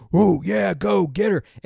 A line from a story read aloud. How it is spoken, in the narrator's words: All of the guys are standing up, jumping out of their chairs, screaming